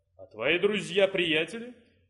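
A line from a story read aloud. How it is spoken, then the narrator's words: Growl. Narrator (Russian): рыкнул Прат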